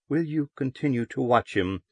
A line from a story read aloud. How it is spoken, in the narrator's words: Loris asked anxiously